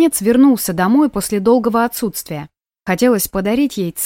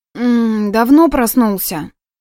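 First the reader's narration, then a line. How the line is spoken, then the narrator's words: Sleepy mumble. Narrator (Russian): Сонно пробормотала она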